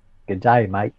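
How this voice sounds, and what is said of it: Put-on Australian accent. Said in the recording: “Australian accent ... They've got the upward inflection, haven't they?”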